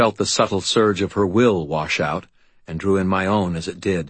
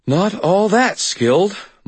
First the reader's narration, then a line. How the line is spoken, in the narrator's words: Molly said, panting, satisfaction in her voice